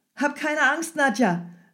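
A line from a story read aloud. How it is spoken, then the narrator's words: Calling out. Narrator (German): rief Michael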